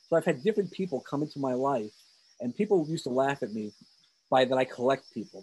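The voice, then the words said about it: New York accent. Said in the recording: “as you hear, I have that New York accent.”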